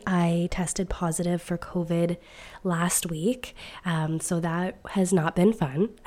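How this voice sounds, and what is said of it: Strained voice. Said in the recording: “excuse my voice ... It is a little bit strained ... my voice still feels a little bit strained”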